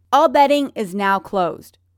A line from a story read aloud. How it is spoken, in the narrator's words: Ryan shouts